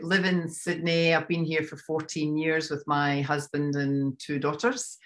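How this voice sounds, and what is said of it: Scottish accent. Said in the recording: “You can obviously guess I'm from Scotland. ... I love the accent.”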